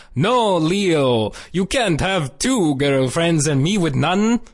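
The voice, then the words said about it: Put-on Swedish accent. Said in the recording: “I love your Svensson accent.”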